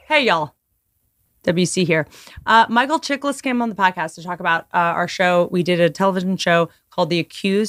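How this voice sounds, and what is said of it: Hoarse, strained, mostly lost voice. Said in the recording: “Sorry about my voice. I lost my voice.”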